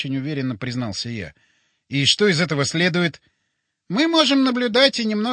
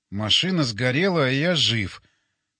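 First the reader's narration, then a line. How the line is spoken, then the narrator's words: Thoughtful repetition. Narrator (Russian): задумчиво повторил я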